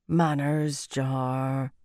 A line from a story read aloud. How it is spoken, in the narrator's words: Maurice murmured